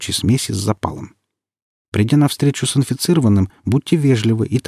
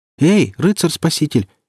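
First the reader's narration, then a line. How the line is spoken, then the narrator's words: Frightened shout. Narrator (Russian): испуганно крикнула девушка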